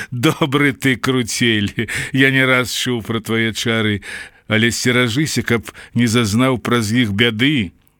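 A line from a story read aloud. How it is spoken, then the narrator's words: Amused after hearty laughter. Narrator (Belarusian): Да Дэмуха смяяўся до ўпаду і сказаў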